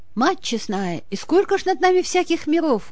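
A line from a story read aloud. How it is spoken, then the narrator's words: Admiring exclamation. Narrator (Russian): воскликнул Игорь, восхищенно глядя в ночное небо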